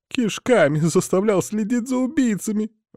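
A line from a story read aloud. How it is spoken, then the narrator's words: Sobbing. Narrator (Russian): он зарыдал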